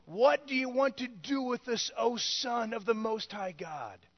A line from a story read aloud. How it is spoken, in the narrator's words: they cried out to him